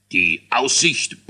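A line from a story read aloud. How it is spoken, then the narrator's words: King grumbling. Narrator (German): brummte der König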